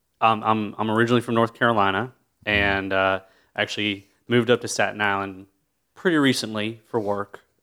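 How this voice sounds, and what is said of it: Unusual Staten Island dialect. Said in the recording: “That is the most interesting Staten Island dialect I've ever heard.”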